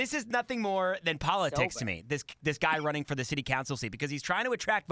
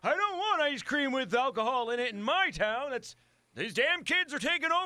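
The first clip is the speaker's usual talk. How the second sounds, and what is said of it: Crotchety old person voice. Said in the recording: “That was the best impression you've ever done.”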